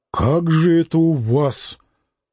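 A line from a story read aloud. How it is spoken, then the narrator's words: Muttering. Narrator (Russian): пробормотав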